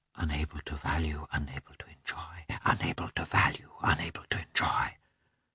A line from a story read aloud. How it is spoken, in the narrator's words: repeated in a strange, mad whisper